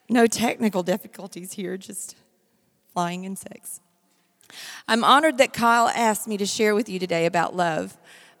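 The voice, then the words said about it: Hoarse voice from laryngitis. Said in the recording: “a laryngitis”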